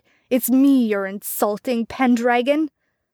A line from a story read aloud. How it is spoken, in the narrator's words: Melguin thundered